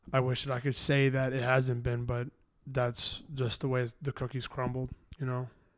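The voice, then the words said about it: Congested, rough voice. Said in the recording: “my voice is a little fucked ... my voice is fucked up, because I'm congested ... I was screaming”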